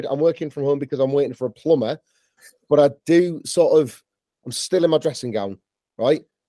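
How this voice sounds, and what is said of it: Croaky, hoarse voice. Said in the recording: “the sound of my croaky voice ... I've got a cold”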